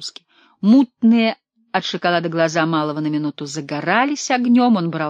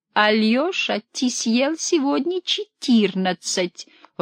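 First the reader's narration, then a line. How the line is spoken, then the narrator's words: Timid whisper. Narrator (Russian): робко шептала Амалия Ивановна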